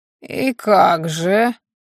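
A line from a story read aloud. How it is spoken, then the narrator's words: Creaky voice inquiry. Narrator (Russian): Скрипучим голосом осведомился магистр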